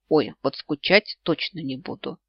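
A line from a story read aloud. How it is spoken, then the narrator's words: Snorting grunt. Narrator (Russian): Я хмыкнула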